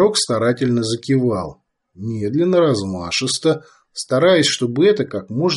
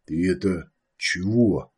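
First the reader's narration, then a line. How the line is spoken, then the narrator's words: Quiet question. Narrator (Russian): спросил он тихо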